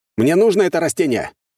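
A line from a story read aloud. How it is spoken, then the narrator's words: Loud. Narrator (Russian): громко произнес я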